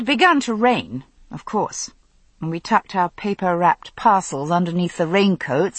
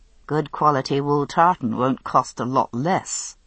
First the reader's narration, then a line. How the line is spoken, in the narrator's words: I said dryly